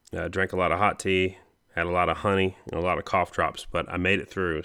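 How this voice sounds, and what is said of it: Raspy, slightly rough voice. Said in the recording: “My throat's still a little bit raspy, a little bit raspier than normal”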